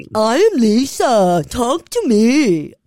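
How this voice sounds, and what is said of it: Imitates another person's voice. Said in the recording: “Was a really good impression.”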